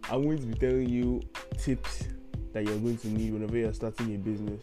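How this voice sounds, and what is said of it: Nigerian English accent. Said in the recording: “You probably already know because of my accent where I'm from ... I'm Nigerian”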